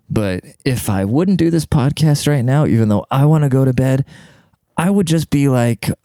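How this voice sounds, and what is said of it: Quiet, soft sultry voice. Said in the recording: “in my sexy voice ... I can't be too loud”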